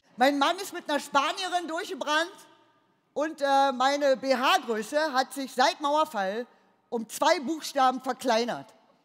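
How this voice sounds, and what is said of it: Broad regional German dialect. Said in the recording (German): “Das Einzige, was mir geblieben ist, ist mein Dialekt. Ja, und den zieh ich jetzt durch.”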